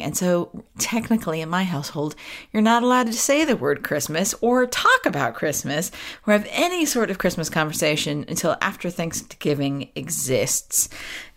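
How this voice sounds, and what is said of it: American accent. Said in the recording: “as the accent betrays me. As you know, I was born and raised American”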